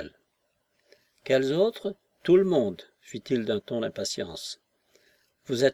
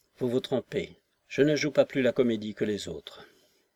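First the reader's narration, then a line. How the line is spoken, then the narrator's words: Barely audible voice. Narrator (French): Il ajouta d'une voix à peine perceptible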